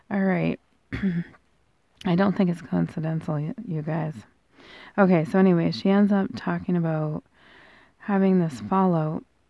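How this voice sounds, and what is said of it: Hoarse, fading voice. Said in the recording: “I'm just losing my voice again today.”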